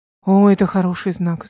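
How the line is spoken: Sighing. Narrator (Russian): вздохнул биолог

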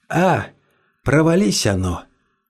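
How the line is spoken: Tired. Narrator (Russian): устало сказал Карл

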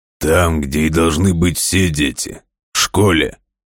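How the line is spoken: Angry booming guard. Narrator (Russian): Сердито прогремел охранник

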